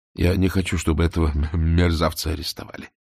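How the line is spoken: Quiet. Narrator (Russian): тихо ответил Фондорин

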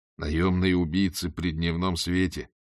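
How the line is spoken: Grumbled. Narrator (Russian): буркнул Ваймс

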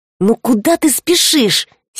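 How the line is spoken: Angry hiss. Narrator (Russian): сердито прошипел он

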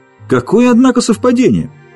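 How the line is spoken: Exclaimed. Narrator (Russian): воскликнул Джеральдин

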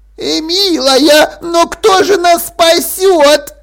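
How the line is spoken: Squeaky voice. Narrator (Russian): пропищала Дафна

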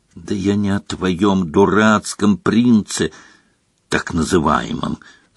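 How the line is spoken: Hissing. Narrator (Russian): зашипела Гермиона

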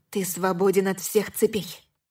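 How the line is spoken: Whisper. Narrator (Russian): прошептала я

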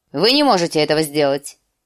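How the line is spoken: Curt announcement. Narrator (Russian): отрывисто объявил лорд Уолдер

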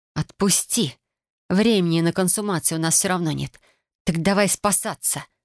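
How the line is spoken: Angry growl. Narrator (Russian): рыкнула я озлобленно

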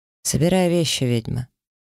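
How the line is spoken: Dry. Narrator (Russian): варг сухо произнес

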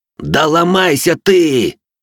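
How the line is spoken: Yelling. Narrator (Russian): Заорал я

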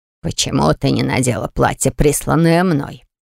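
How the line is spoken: Angry growl. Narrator (Russian): зарычал граф, хмуро сдвинув брови

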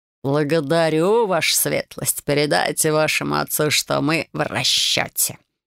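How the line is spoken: Snorting. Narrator (Russian): хмыкнул Бэкстон

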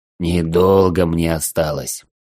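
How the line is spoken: Hoarse, heavy breathing. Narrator (Russian): Тяжело дыша, прохрипел

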